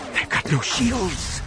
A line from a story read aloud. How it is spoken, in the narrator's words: she whispered, more to herself than anyone else